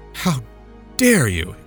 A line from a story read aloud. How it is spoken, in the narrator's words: exclaimed the passenger